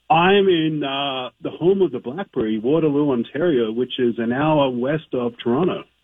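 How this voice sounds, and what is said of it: Australian accent. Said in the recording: “he's like also like Australian, too, right? ... You think you'd lose the accent by now?”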